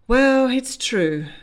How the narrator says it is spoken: he sighed

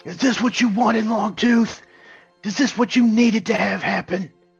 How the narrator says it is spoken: yell out into the crowd

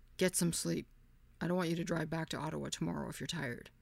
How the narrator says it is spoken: said in his deep, growly

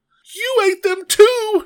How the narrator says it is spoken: cried

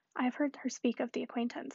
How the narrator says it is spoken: said Emma

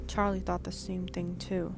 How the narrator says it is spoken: I mumbled

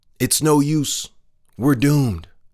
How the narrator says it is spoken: one frog cried out

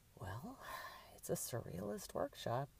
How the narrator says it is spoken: Drew muttered to herself

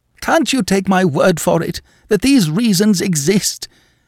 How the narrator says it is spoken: He cried in anguish

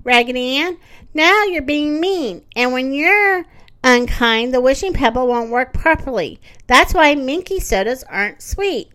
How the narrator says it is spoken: said Andy cried

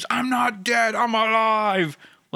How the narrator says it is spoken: floats in the air, just screams

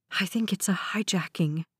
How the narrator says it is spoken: Meredith whispered

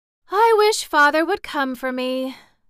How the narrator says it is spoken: sighed the pretty Rainbow's daughter

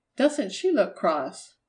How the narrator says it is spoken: Marjorie exclaimed

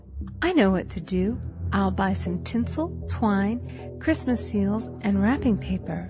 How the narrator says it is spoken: She exclaimed

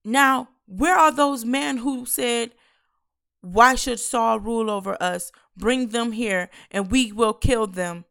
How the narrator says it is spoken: Then the people exclaimed to Samuel

